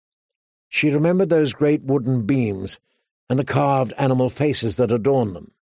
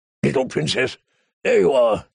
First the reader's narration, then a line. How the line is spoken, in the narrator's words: he said in his gruff, kind voice